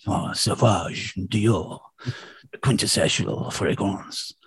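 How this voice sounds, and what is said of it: Exaggerated French accent. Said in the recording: “like a French sort of accent, exaggerated”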